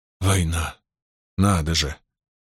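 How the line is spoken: Muttering under breath. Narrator (Russian): продолжал бормотать себе под нос мастер Коутон

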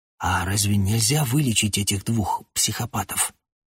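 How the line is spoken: Quiet question. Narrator (Russian): Я тихонько спросил Госса

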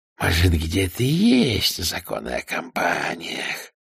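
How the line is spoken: Hiss. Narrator (Russian): прошипел он

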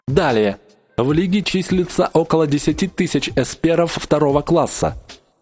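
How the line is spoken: Icy cold tone. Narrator (Russian): ледяным тоном продолжал начальник

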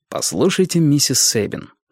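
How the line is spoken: Plain. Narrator (Russian): сказал Мейсон

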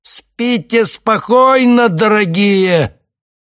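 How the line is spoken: Shout. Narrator (Russian): прокричал

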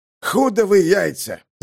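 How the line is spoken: Roaring hurricane. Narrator (Russian): зарычал ураган

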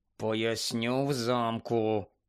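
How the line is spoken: Quiet. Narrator (Ukrainian): тихо сказав Рон

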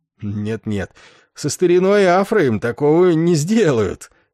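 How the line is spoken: Short laugh. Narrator (Russian): он коротко рассмеялся

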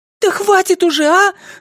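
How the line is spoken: Shouting woman. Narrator (Russian): закричала Айрис

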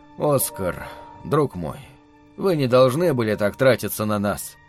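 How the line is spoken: Quiet reproach. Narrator (Russian): тихо выговаривал мне Герман

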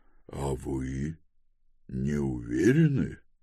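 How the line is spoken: Quiet speech. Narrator (Russian): тихо проговорил Квинтессец

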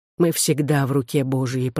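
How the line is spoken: Whisper. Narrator (Russian): прошептал он

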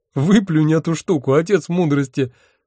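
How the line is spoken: Groaning through laughter. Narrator (Russian): сквозь смех простонал я

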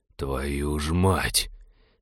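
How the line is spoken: Exhaled exclamation. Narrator (Russian): Выдохнул он

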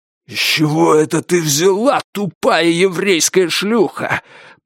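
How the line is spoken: Hiss. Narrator (Russian): прошипел обладатель большой татуировки

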